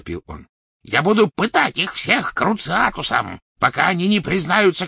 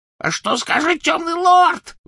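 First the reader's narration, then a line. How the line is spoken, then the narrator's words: Shrill squeal. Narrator (Russian): взвизгнул он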